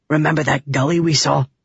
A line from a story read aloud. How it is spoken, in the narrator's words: Bluth whispered